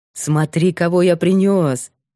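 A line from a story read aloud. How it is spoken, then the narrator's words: Lively shout. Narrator (Russian): оживлённо крикнул Илюшин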